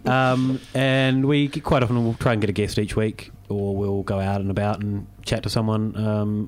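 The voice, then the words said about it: New Zealand accent. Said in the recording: “that funny accent you've got ... I'm originally from New Zealand”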